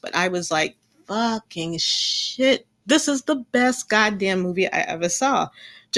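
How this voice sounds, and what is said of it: Gleeful excited voice. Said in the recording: “hear the glee in my voice”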